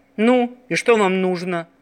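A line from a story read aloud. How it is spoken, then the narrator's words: Menacing sailor's question. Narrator (Russian): грозно спросил моряк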